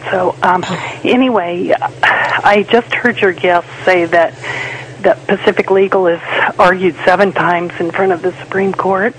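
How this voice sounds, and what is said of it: Impaired, strained voice. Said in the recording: “She's having issues with her voice... apologize for my voice... Surgery on Friday.”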